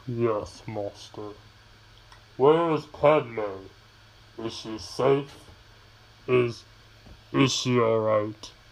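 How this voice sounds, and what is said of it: Darth Vader character voice impression. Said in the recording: “my best impersonation of Darth Sidious and Darth Vader from the end of episode 3”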